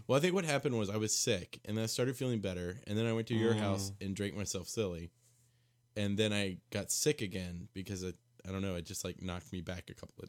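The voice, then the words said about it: Strained, unwell-sounding voice. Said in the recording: “I do apologize for my voice.”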